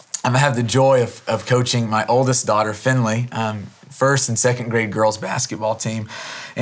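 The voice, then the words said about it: Slightly hoarse voice. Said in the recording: “My voice is a little hoarse from today ... I was trying to get their attention in a large gym for two hours. And so uh, my voice is a little hoarse this morning.”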